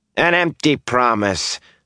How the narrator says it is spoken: Bornhold sneered

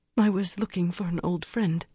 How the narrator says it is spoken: she quavered

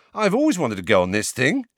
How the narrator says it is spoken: said Ron happily

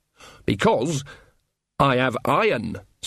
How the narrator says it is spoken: said Nanny, her voice suddenly sharp

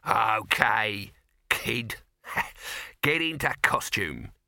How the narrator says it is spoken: he chuckled

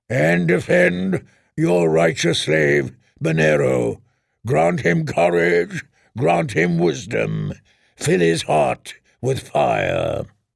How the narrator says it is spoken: the Red Priest boomed

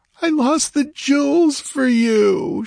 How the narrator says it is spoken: wailed miserably

